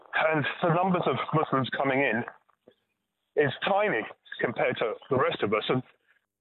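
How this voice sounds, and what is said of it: Foreign, immigrant accent. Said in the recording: “you clearly are too, judging by your accent”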